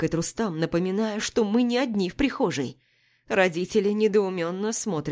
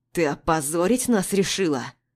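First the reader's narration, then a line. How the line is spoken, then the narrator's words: Angry hiss. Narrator (Russian): Зло шипит отец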